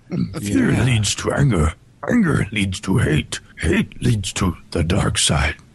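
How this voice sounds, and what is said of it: Yoda character voice. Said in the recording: “It'd sound like Yoda ... you did that scarily well.”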